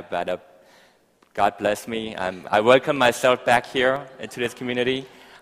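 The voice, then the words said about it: Speaks with a noticeable accent. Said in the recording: “my accent is still there ... I have this weird accent”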